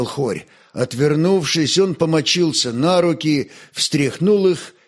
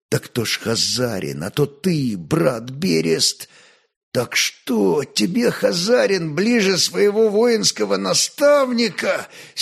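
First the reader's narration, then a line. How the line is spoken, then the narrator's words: Angry wounded wheeze. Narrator (Russian): сердито прохрипел раненый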